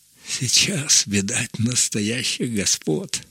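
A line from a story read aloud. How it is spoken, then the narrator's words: Muttering. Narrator (Russian): бормотал он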